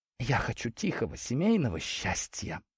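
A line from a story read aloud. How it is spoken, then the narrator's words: Whisper. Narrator (Russian): шепотом произнесла Ляля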